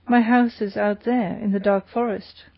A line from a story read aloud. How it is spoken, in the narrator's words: he said